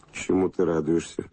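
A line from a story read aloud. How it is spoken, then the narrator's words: Plain. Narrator (Russian): спросила она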